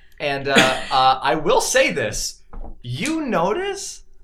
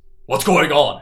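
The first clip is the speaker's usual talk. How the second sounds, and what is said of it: Deep character voice. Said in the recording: “you hear this deep voice.”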